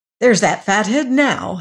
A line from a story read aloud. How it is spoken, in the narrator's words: he said excitedly